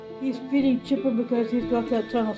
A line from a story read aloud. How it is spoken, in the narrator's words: said Ma